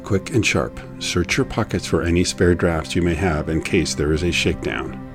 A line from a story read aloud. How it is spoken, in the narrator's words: whispering